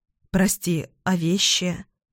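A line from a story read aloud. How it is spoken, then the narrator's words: Timid question. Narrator (Russian): робко спрашиваю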